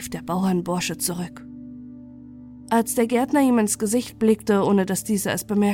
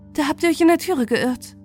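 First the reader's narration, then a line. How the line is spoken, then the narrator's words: Girl calling back. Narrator (German): rief die Gärtnerstochter zurück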